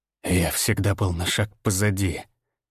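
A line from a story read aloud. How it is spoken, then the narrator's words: Traitor's whisper. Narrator (Russian): прошептал предатель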